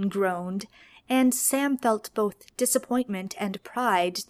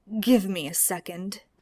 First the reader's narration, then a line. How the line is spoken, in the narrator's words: he panted